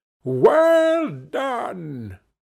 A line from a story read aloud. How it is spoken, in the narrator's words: old Fezziwig, clapping his hands to stop the dance, cried out